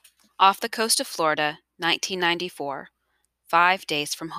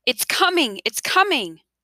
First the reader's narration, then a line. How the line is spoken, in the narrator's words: Isabel's mother cried out